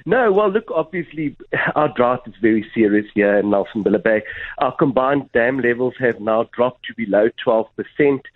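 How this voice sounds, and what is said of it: Slightly stuffy, congested voice. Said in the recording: “I've got a bit of a cold,”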